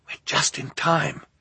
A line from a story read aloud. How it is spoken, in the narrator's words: Klaus whispered to Violet